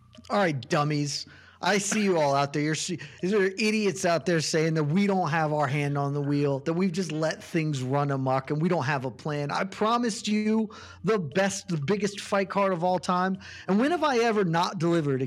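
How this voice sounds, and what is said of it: Dana White impression. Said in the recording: “You could do it as Dana White.”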